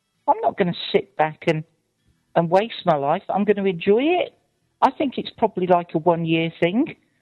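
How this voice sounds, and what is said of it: English West Midlands accent. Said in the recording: “I'm from Shropshire. We don't have a British accent. ... Like nearly Dudley in the West Midlands ... Sounds pretty British to us.”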